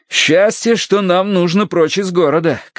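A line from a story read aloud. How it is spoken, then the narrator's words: Shouting over crowd. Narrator (Russian): крикнул я Верити, которую оттеснила от меня толпа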